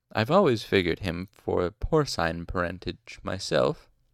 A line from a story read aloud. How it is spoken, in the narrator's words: Willem said dryly